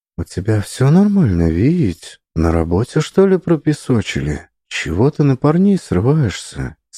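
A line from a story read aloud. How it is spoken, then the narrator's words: Quiet, oddly tender. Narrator (Russian): спросила она тихим и слегка неуместно ласковым голосом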